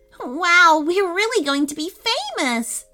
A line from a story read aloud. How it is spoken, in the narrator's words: squealed Tenley